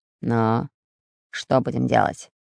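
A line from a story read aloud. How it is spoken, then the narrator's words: Menacing hiss. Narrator (Russian): грозно прошипел Буль-Буль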